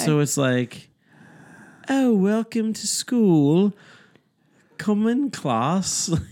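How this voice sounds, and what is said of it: Bad British lady accent. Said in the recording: “I do a terrible British lady ... Daddy, you do a terrible accent”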